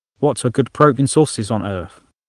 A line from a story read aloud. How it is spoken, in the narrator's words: David chuckled